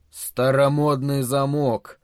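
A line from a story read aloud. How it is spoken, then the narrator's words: Grumbling. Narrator (Russian): проворчал Харрисон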